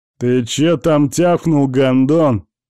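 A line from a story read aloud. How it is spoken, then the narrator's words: Loud booming question. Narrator (Russian): громко и громогласно вопрошает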